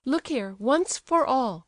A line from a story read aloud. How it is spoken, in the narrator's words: cried Aglaya, boiling over